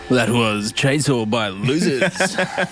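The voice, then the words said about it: Exaggerated radio announcer voice. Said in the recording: “My most radio voice.”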